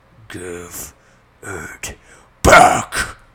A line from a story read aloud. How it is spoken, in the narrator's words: The tree bellowed